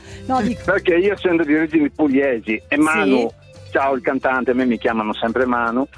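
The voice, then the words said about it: Friulian-accented Italian, not Apulian. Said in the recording (Italian): “l'accento non è proprio pugliese ... Pordenone, beh certo che si sente dall'accento”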